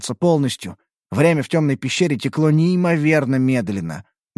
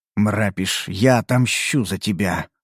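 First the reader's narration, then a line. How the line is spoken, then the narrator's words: Quiet muttering. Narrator (Russian): пробормотал я тихо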